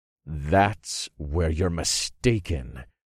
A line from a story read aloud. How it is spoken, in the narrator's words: I growled